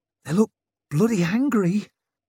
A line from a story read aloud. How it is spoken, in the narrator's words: squeaked Tallow